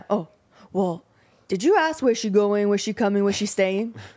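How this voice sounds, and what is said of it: Imitates another person's voice. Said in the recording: “everybody do your best impression of that sound ... It was good. It was a good impression.”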